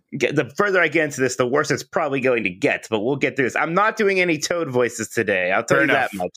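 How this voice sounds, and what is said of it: Slightly strained voice. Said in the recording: “My voice is it's a little strained right now”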